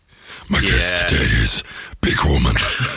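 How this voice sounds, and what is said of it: Throat-straining Batman voice. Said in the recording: “He'd have a really sore throat, wouldn't he? After doing that voice. ... he'd really start cracking at the end.”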